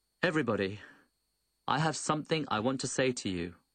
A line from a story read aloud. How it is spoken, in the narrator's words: Old Chen stood up and proclaimed in a loud voice